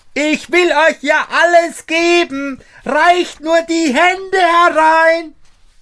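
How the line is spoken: Screaming as loud as possible. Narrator (German): schrie Daumestick noch einmal, so laut er konnte

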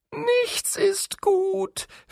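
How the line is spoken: Whimpering angel. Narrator (German): wimmerte der Engel

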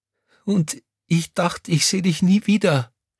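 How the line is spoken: Sobbing. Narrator (German): schluchzte Crescentia Rausch

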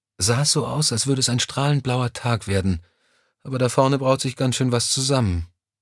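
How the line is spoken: Sighing. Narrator (German): seufzte sie

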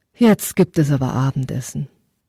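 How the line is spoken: Mother's deep sigh. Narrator (German): Seine Mutter seufzte tief und sagte

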